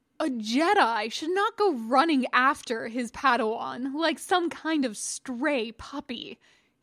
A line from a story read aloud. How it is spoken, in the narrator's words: he growled